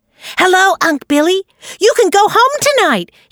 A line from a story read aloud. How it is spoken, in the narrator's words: he shouted